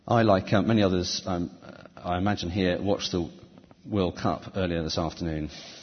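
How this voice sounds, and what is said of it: Slightly croaky voice. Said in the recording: “My voice is slightly croaky.”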